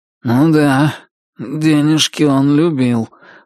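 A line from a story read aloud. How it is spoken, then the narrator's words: Gloomy remark. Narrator (Russian): мрачно заметил Туз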